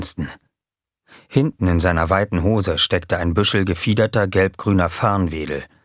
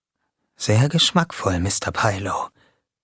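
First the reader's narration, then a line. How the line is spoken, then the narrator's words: Whispered. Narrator (German): wisperte Jamie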